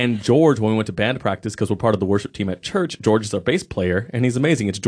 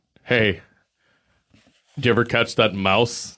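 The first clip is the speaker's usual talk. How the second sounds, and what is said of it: Imitates another person's voice. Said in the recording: “That's my George impression.”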